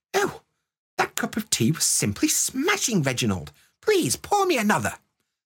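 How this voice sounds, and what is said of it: Put-on posh English accent. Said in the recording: “that's my posh accent, by the way. You can tell I don't spend much time around posh people, but I'm from the north.”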